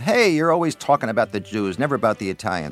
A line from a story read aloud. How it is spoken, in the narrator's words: yelled